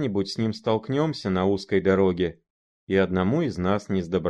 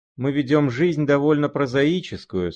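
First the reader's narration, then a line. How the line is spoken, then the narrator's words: Sighing. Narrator (Russian): сказал он, вздохнув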